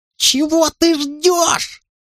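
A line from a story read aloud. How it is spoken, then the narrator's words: Shrieking. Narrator (Russian): завизжал Уэйн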